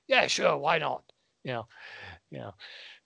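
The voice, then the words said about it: Gravelly imitation of another person's voice. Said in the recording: “my John Hurt impression ... I do a really decent John Hurt impression ... I can really get the graveliness of it down pat.”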